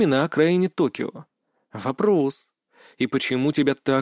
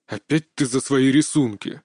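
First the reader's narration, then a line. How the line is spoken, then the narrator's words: Displeased father grumbling. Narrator (Russian): недовольно проворчал отец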